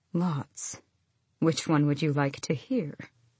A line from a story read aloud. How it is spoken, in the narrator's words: smiled faintly and said